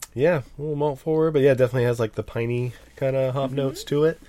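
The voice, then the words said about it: Stuffed-up, congested voice. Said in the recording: “I'm a little stuffed up if you can't tell from my voice ... He's got super sexy Steve voice.”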